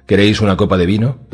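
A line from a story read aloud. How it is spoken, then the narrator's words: Plain question. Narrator (Spanish): preguntó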